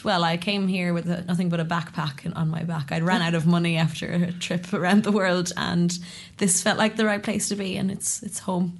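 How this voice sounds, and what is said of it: Irish accent, not Kiwi. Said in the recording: “you don't have a Kiwi accent ... I came from Ireland”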